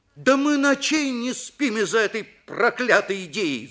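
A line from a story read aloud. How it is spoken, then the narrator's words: Shouting. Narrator (Russian): закричал Виктор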